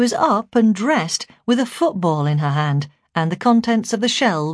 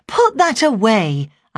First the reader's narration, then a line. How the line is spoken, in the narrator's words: I said crossly